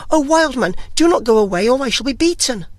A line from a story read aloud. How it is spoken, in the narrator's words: He called and cried after him